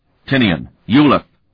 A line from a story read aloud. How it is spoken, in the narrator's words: Sparhawk snapped